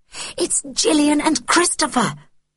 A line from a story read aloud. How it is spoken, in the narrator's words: mouthed something excitedly